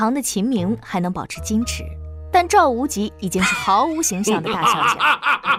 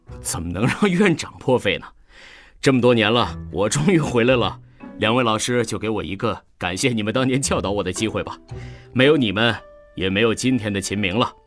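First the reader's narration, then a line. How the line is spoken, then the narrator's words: Smiling. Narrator (Chinese): 秦明此时的表情已经恢复正常，微笑着说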